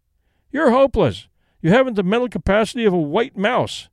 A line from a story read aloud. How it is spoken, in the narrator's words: cried